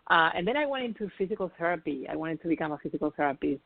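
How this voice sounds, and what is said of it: Spanish accent in English. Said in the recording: “when I moved to New York from Spain, where originally I'm from, if you haven't noticed, I have an accent.”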